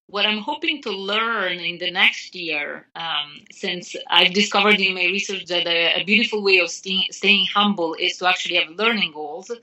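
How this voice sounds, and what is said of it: Speaks with a noticeable accent. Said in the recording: “I'm still learning to get rid of my accent that is not being very successful.”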